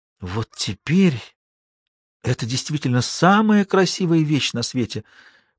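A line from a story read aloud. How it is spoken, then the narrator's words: Whisper. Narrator (Russian): прошептала Шула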